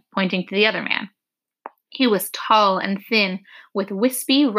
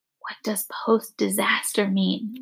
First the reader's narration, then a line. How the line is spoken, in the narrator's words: Lena whispered to Dune